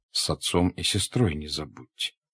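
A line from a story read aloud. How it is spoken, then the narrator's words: Quiet. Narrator (Russian): тихо сказал князь Андрей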